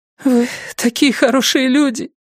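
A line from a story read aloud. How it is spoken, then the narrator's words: Sobbing. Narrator (Russian): всхлипнула она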